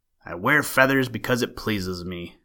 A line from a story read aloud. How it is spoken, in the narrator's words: growled the king